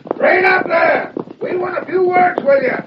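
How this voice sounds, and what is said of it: Yelling. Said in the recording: “he's yelling at us”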